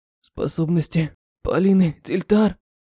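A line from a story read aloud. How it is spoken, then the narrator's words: Hoarse. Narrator (Russian): хрипло произнес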